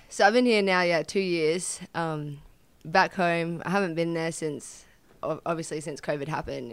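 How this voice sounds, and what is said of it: Australian accent. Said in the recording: “Australia, you came from Australia. Kind of easy to identify given the accent.”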